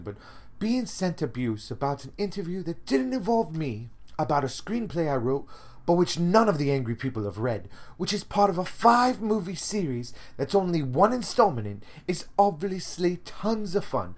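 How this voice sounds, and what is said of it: Imitated British woman's accent. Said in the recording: “I'll do it in my best British lady accent”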